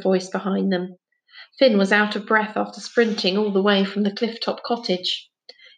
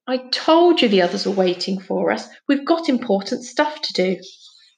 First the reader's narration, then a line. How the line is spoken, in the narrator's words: said crossly